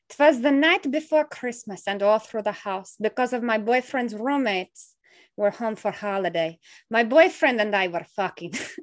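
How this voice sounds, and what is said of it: Weak attempted Russian accent. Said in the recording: “Should I do like a Russian accent? ... Okay, I can't do the accent.”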